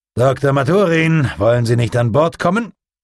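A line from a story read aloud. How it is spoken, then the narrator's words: Calling out. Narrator (German): Er rief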